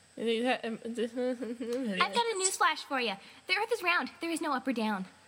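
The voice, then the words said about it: Attempted Pinkie Pie impression. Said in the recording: “You sounded different for a second. ... She did it in a different voice. ... I was attempting a Pinkie Pie impression, but that wasn't... very good.”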